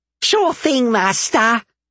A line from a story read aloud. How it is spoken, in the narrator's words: Bob said, his voice happy